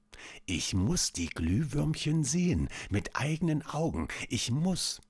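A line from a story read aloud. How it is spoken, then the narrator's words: Quiet whisper to herself. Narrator (German): Leise flüsterte sie vor sich hin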